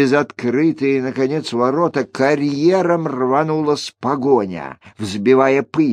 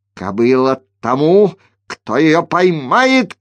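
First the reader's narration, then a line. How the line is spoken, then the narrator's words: Shouted. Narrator (Russian): крикнул Скеллен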